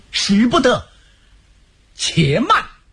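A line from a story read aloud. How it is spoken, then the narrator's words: Loud shout. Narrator (Chinese): 有人大喊一声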